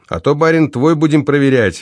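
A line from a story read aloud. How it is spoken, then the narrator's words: Cheerful laughing. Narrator (Russian): весело рассмеялся Беззубый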